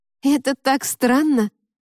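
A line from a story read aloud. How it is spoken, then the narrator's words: Exclaimed. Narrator (Russian): воскликнула Ева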